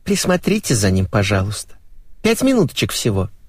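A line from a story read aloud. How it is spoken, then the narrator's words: Thin-voiced timid request. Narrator (Russian): Райка тонким голоском попросила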